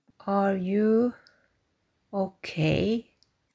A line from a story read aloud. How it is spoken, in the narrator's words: Foggy asked hesitantly